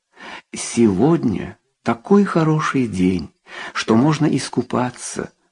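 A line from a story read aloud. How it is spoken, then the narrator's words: Plain. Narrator (Russian): сказал Рауль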